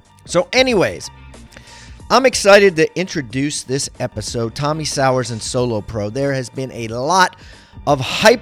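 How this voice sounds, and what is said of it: Strained, hoarse voice. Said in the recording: “As you can hear my strained voice, I thought I was losing my voice because I had some sort of throat cold”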